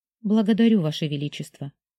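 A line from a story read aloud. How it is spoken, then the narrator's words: Soft. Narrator (Russian): мягко произнесла Сяомин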